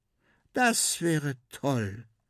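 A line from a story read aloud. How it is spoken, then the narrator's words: Girl's sigh. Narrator (German): seufzt das Mädchen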